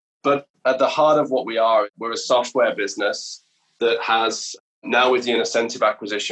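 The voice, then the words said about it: British accent. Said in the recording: “as you'll tell from my accent, I'm a Brit.”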